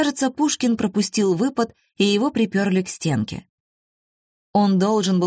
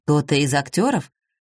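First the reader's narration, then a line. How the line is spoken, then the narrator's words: Gloomy, defeated. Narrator (Russian): мрачно, как побежденный, спросил он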